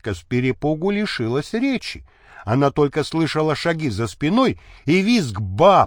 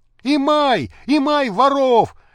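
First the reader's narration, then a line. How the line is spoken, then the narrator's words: Man shouting. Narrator (Russian): закричал мужской голос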